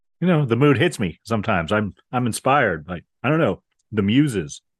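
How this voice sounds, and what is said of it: Quicker, breathier put-on voice. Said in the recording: “trying out a new voice today? ... I'm trying my coffee talk voice. ... It's quicker and breathier. You're going back to the Marilyn Monroe.”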